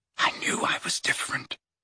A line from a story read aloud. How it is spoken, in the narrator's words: whispered